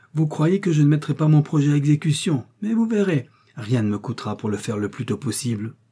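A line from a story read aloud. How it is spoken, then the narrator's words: Furious exclamation. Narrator (French): s'écria-t-elle, folle de colère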